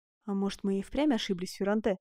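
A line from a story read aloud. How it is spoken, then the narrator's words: Quiet question. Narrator (Russian): тихо спросил Фракасо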